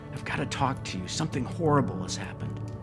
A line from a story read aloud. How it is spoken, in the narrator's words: he whispered